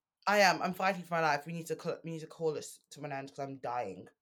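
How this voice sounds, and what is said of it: Sounds ill, sick voice. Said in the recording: “You sound so ill.”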